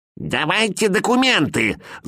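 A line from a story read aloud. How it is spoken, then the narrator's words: Shrill nasty old woman. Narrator (Russian): завопила старуха противным голосом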